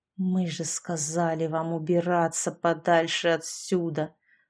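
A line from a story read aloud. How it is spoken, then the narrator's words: Through gritted teeth. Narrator (Russian): Сквозь зубы процедил Саша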